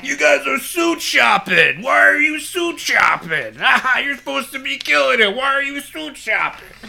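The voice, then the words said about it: Imitates another person's voice. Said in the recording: “my Bill Burr impression”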